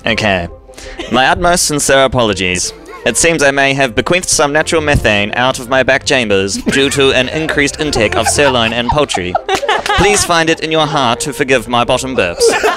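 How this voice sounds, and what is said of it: Old-fashioned 1950s TV announcer accent. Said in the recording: “The accent is so like 1950s TV.”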